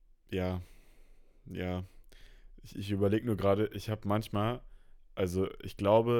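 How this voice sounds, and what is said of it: Usual voice. Nothing is said of it.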